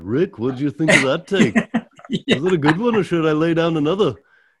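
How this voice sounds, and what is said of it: Imitated Liverpool accent. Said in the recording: “That's not bad, Liverpool ... Impersonation. That was very good.”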